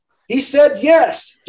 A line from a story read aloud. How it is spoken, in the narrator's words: Daniela shouted